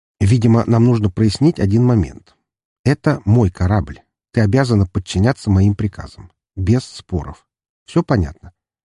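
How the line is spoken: Calm, unthreatening. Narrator (Russian): говорил спокойно, не излучая угрозы

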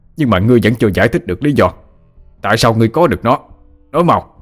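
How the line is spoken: Shouted. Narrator (Vietnamese): Tà sư Linh quát lên

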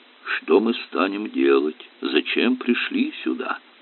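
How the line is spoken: Soft singing. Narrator (Russian): Аристарх Палыч тихо пропел

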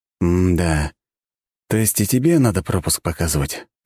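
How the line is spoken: Sighing. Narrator (Russian): вздохнул я

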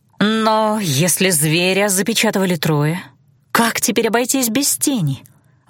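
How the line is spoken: Breathed out. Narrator (Russian): выдохнула я

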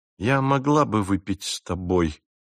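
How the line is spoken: Slow, measured speech. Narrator (Russian): медленно проговорила

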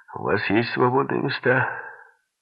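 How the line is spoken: Loud question. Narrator (Russian): Войтых громко спросил

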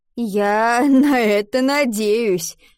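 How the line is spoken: Laughing. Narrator (Russian): засмеялся Адам

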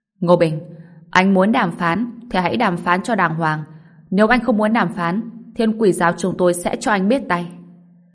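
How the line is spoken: Loud speaking. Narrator (Vietnamese): Giang Nguyệt Hân lớn tiếng nói

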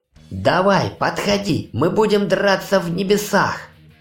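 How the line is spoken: Terrible demonic doomed laughter. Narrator (Russian): Неп захохотал страшным демоническим голосом обреченного

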